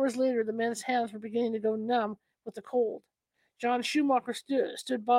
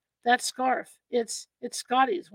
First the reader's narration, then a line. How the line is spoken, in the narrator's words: one man said in a sick, strangled voice